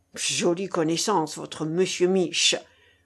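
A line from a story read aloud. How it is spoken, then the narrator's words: Grumbling. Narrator (French): bougonna la ficelle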